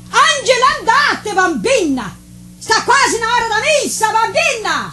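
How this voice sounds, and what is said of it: Shouting. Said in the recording (Portuguese): “Não grita”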